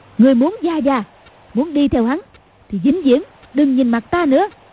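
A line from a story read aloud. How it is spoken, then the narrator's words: Sharp shout. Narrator (Vietnamese): Cầu Thiên Xích quát lên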